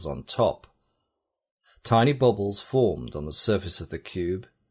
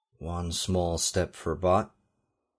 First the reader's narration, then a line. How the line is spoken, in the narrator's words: he murmured, emulating Neil Armstrong's Apollo 11 saying